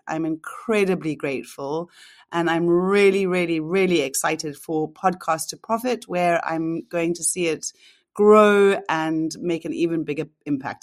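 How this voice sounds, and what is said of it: Sweet, adorable regional accent. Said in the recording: “adorable, adorable accent ... I love your sweet accent.”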